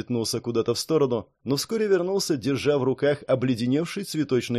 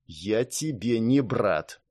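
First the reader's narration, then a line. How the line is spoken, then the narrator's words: Through clenched teeth. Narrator (Russian): процедил сквозь сжатые зубы рыцарь Сентября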